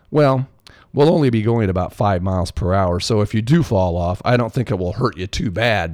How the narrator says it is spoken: Basil laughed

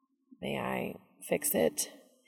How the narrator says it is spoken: he asks timidly

